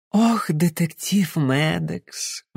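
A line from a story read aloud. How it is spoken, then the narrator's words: Sigh. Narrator (Russian): вздохнула Розалинд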